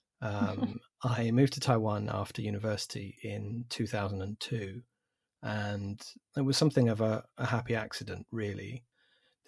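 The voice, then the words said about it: English accent. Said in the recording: “As you can probably tell from the accent, I'm English.”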